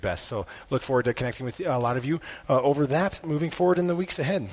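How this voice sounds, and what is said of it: Hoarse, nearly lost voice. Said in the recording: “my voice is gone this morning”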